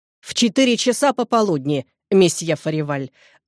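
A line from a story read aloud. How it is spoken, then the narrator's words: Sharp, haughty. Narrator (Russian): ответил Робер резко и с надменным видом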